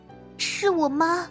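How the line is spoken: Dazed, tearful. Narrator (Chinese): 好半天才回过神来，声音带着哭腔

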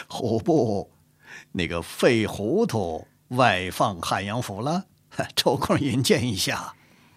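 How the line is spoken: Shaking with laughter. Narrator (Chinese): 傅恒已经笑得浑身乱颤 笑着对乐敏和钱度说

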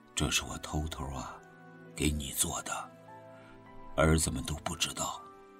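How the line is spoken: Soft voice. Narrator (Chinese): 许三观轻声说

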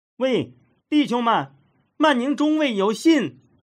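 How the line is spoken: Warm shout. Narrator (Chinese): 来者亲切地嚷着

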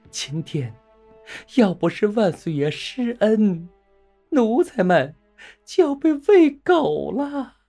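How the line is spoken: Tearful pleading. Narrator (Chinese): 刘瑾先哭诉

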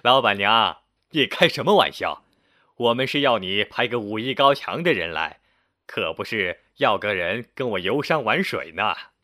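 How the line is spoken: Hearty laughter. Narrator (Chinese): 不禁哈哈大笑说

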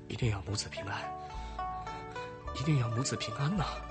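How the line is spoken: Anxious low prayer. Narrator (Chinese): 曾家主人 急得团团转 低声祈求

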